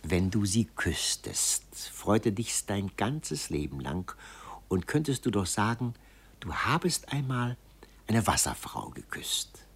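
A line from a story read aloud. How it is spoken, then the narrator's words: Murmured into ear. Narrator (German): raunte ihm sein eigener Schalk ins Ohr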